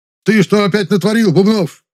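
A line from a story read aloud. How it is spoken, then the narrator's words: Indignant yell, male. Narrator (Russian): возмущенно заорал он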